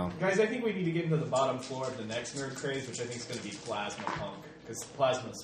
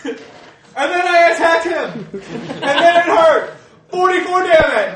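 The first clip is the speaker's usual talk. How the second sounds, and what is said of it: Loud enthusiastic yelling. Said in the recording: “Yelling out attack powers ... Loud power. ... I was just imitating.”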